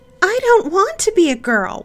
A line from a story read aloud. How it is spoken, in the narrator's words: one of the sissies shrieked